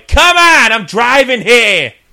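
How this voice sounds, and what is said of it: Put-on New York accent. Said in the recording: “I kind of get like a New York accent.”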